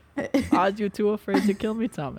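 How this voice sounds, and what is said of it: Poor attempt at German accent. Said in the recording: “I have to say like Hitler ... I I can't do a German accent.”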